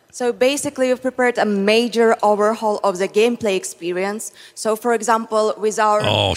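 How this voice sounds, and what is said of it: Polish-accented English. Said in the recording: “Her Polish accent is cool.”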